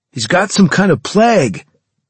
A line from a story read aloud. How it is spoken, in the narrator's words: Carlos shouted